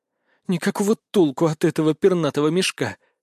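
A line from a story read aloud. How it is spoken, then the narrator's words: Hag hissing through teeth. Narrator (Russian): сквозь зубы процедила корга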